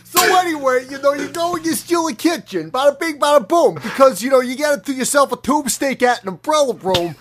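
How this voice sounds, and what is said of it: Put-on New Jersey accent. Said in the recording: “do it while also doing a New Jersey accent”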